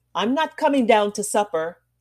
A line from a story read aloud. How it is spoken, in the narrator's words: Zena called out from her seat